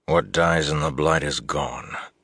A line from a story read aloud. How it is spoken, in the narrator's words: Lan said wearily